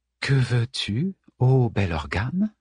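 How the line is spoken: Low-voiced reply. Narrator (French): répondit Moira à voix basse

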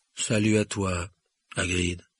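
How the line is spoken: Deep, sad voice. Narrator (French): répondit Ronan d'une voix grave et triste

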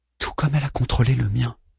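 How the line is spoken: Low voice. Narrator (French): dit-elle à voix basse

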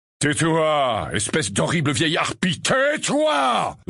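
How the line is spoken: Roaring. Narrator (French): rugit-il

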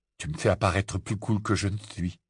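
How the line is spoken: Mumbling. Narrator (French): marmonna Ron

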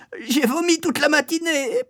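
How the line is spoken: Whimpering. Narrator (French): pleurnichai-je

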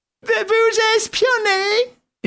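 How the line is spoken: Moaned. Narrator (French): gémit Wilson

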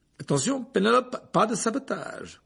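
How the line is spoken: Amused tone. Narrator (French): dit Percy d'un ton amusé

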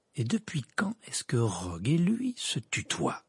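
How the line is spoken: Slow. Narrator (French): dit lentement Harry

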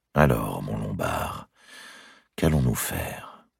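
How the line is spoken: Murmur. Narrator (French): avait-il murmuré

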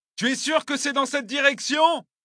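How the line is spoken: Shouted. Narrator (French): hurlai-je

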